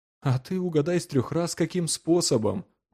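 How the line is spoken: Gloomy remark. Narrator (Russian): мрачно заметил Джон

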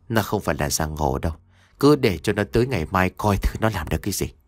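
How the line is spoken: Cold, dismissive. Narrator (Vietnamese): Bà Nhàn cười nhạt rồi nói

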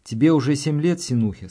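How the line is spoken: Plain. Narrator (Russian): сказал он

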